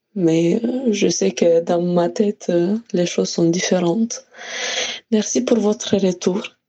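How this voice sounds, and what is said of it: Speaks French with an accent. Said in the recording (French): “J'aime toujours autant ton accent, je le trouve magnifique”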